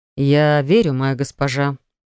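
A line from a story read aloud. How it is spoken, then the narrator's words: Through gritted teeth. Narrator (Russian): процедил Ярос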